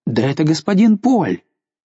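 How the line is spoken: Exclaiming. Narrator (Russian): Затем он вдруг воскликнул

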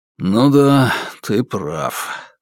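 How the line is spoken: Exhaled. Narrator (Russian): выдохнул я

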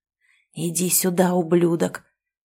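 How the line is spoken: Furious hiss. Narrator (Russian): прошипел я, чувствуя, как лицо затряслось от гнева

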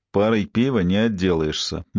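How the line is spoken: Gloomy reply. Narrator (Russian): мрачно ответил Кевин

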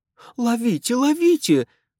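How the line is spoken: Shouting. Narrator (Russian): закричала миссис Уайзман

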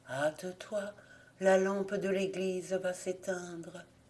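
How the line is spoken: Soft voice. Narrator (French): reprit doucement la voix

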